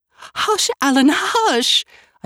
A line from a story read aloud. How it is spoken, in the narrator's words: I cried hysterically